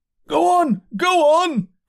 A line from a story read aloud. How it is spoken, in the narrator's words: cried the voices